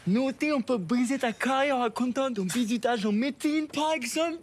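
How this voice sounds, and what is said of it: Put-on Creole accent. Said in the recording (French): “C'est quoi cet accent? ... Créole. ... T'es un peu le spécialiste des accents.”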